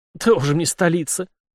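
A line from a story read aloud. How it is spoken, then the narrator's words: Snorting. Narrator (Russian): фыркнул Крылов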